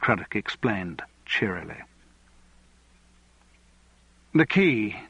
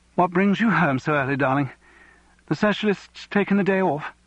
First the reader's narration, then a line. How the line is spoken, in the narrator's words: She laughed nervously at her joke